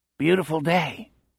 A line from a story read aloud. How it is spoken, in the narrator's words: Bernie said faintly